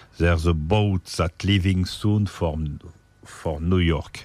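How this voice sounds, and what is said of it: French-accented English. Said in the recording (French): “Excusez mon accent”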